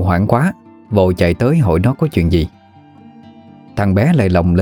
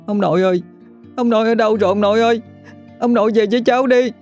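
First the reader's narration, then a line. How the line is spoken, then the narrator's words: Child wailing, calling out. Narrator (Vietnamese): nó khóc lóc thảm thiết, miệng không ngừng gọi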